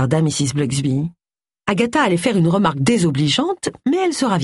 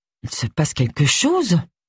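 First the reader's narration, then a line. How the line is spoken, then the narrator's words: Muttering. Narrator (French): marmonna-t-elle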